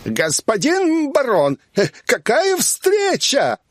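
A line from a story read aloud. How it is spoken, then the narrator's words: Shouting from afar. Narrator (Russian): закричал он издалека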